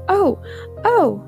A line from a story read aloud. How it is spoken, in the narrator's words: cried